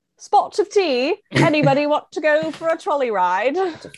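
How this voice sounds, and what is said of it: Poor put-on British accent. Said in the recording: “I can do a British accent ... it's still terrible”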